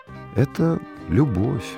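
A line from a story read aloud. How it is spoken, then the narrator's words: Sigh. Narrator (Russian): вздохнул студент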